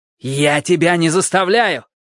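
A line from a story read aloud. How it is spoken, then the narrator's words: Shouted back. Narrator (Russian): крикнул он в ответ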